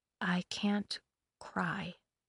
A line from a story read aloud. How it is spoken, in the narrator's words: she whispered instead